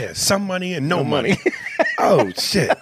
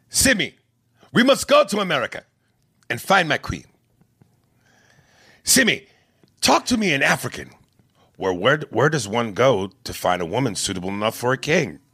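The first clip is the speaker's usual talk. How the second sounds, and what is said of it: Put-on African accent. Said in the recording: “Arsenio's African accent”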